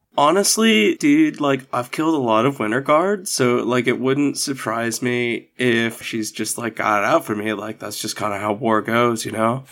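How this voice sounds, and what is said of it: Put-on Valley Boy accent. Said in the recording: “in a Valley Boy accent”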